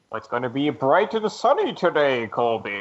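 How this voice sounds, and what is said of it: Growly Bane character voice. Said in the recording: “Bane. ... Just completely incomprehensible. ... That's pretty good. You're kind of selling me.”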